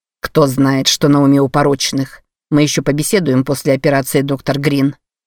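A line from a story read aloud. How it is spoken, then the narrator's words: Plain. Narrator (Russian): сказал Креван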